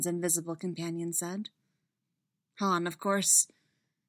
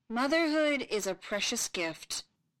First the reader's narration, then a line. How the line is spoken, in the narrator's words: Ben intoned solemnly, reading from a tablet in his hand